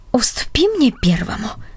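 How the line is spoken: Old man's whisper. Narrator (Russian): прошептал дедушка Дик

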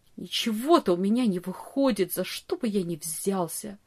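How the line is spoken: Bitter muttering. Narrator (Russian): горько бормотал он

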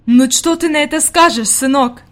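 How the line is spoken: Exclaiming. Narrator (Russian): воскликнула она

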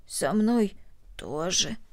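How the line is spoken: Hoarse reply. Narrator (Russian): хрипло ответила Корнели

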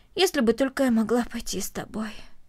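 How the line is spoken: Heavy sigh. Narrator (Russian): тяжело вздохнула Корнели

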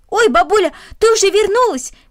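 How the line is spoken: Indifferent shout. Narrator (Russian): крикнул, равнодушно

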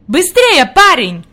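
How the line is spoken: Shouted. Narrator (Russian): крикнул господин Сесман

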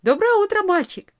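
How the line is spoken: Cheerful. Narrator (Russian): весело сказала она

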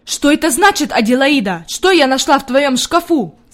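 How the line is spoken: Shouting. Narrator (Russian): закричала она

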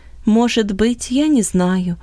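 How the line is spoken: Calm reply. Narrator (Russian): спокойно ответил Иосиф

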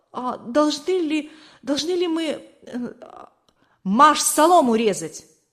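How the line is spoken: Timid babbling. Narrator (Russian): он пролепетал

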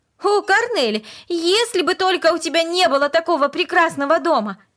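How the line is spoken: Sudden passionate exclamation. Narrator (Russian): Вдруг она страстно воскликнула

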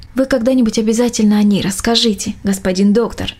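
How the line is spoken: Plain. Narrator (Russian): ответила мельничиха

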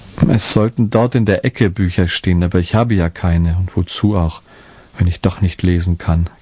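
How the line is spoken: Sad confession. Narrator (German): gestand Martinko traurig

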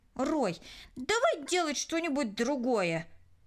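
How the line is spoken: Irritated. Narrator (Russian): раздраженно произнесла Кристина

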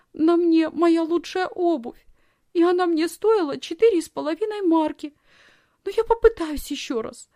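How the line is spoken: Sobbing. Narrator (Russian): Лисхин принялась всхлипывать

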